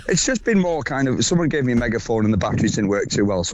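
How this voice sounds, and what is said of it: Hoarse voice. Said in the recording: “Were you doing a lot of shouting over the weekend? Because you sound quite hoarse. ... it takes its toll over the weekend.”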